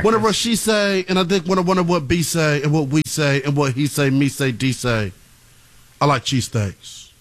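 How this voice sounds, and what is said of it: Put-on UK rapper accent. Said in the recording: “It's my UK rapper accent. That was my Central C impression.”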